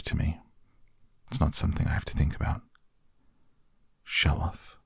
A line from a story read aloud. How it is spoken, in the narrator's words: I muttered again